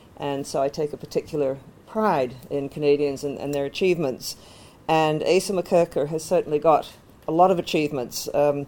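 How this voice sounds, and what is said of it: Canadian accent. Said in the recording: “as you may tell from my accent, I'm also Canadian.”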